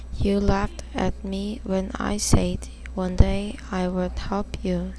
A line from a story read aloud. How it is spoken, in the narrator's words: said the mouse